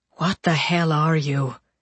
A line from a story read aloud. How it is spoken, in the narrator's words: Tommy whispered